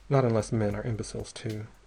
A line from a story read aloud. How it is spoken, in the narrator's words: he said dryly